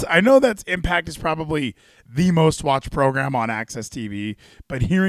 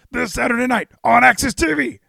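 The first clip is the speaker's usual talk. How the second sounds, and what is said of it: Imitates another person's voice. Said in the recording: “That's my Excalibur impression.”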